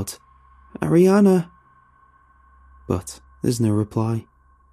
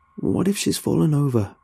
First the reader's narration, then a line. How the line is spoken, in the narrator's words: I mutter